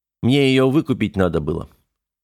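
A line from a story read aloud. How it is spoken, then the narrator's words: Calm explanation. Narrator (Russian): спокойно объяснил Корбит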